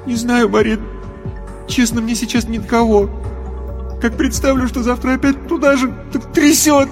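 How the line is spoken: Roaring turning into sobs. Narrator (Russian): Рев перешел во всхлипывание

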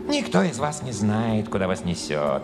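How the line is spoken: Cooing. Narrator (Russian): проворковал он

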